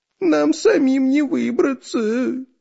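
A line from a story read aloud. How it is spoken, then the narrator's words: Whining. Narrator (Russian): скулил Дырка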